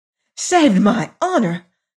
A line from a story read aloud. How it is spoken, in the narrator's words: cried Mrs